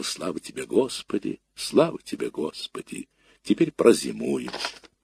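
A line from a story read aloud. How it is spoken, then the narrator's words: Whispered. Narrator (Russian): шептала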